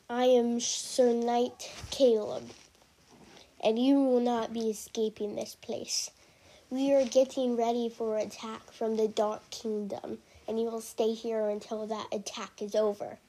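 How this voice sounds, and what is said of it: Deep male character voice. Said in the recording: “said the deep voice”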